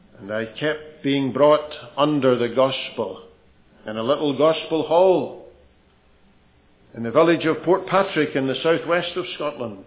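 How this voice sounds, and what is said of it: Blended Ulster and Scottish accent. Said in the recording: “I've got this blended accent between Ulster and Scotland, and maybe a bit of something else thrown in as well”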